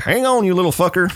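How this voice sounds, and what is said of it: Character voice in Southern accent. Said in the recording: “He has a Southern accent now.”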